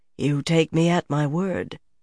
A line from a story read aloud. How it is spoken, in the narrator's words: the queen said quietly